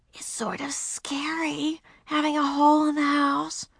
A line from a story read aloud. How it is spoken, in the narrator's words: Beezus whispered